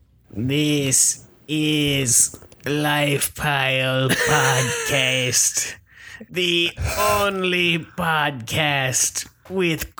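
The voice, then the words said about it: E.T. alien character voice. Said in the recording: “do an impression of E.T. doing an impression of yourself”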